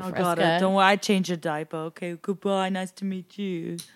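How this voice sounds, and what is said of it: Inconsistent put-on accent. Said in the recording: “I don't know where that accent keeps coming from. ... it's really all over the place.”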